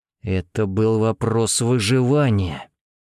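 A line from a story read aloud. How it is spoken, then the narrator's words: Tense words through teeth. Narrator (Russian): процедил, сжимая убранные за спину руки в кулаки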